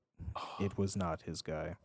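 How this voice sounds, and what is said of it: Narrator voice. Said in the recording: “Narrator voice.”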